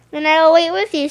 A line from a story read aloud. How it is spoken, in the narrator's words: said Rabbit